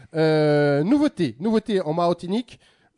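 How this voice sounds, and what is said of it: Briefly put-on accent. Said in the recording (French): “pourquoi j'ai fait l'accent?”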